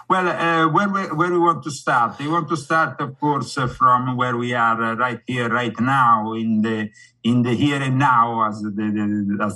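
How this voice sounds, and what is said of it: Strong Italian-sounding accent. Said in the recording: “some people don't understand this accent... they call me like Chef Boyardi... some people, especially here in America, have problems with my accent in understanding it. Others find it addictive and nice”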